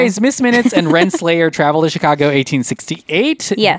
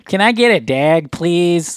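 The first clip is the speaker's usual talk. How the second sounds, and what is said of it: Put-on Chicago accent. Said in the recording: “We got that accent. ... Chicago.”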